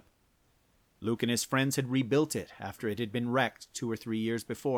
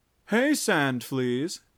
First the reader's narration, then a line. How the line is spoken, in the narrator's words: mocked